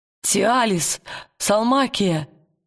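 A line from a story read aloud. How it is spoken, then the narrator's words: Trembling call. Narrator (Russian): дрожащим голосом позвал он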